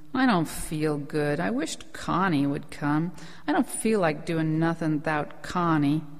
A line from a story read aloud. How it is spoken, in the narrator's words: Rose of Sharon said sullenly